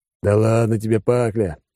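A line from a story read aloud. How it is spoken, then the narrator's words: After laughing. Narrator (Russian): отсмеявшись, сказал Алекс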